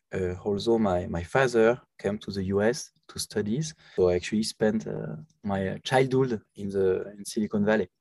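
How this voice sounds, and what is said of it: French accent. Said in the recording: “As you can hear from my accents, I'm French.”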